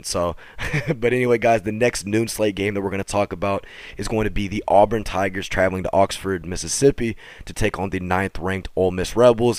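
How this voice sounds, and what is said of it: Hoarse, strained, nearly lost voice. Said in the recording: “my voice has just changed automatically ... I was yelling a little bit ... my voice literally being non-existent”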